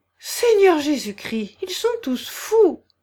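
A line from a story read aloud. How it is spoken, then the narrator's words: Shocked exclamation. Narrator (French): s'écria Barbara Petrovna, qui blêmit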